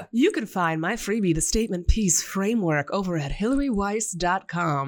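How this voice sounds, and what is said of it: Radio announcer voice. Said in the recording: “I'll put on my radio announcer voice ... Radio announcer voice.”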